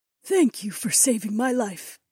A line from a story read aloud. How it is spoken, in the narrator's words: she said in a soft voice